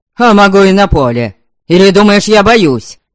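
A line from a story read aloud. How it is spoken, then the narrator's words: Hot, indignant exclamation. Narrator (Russian): Запальчиво воскликнул да нельзя возмущенный Верем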